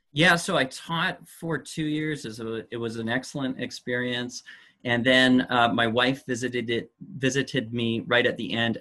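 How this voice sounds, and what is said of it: Canadian accent. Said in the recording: “you'd come from Canada ... That explains the accent.”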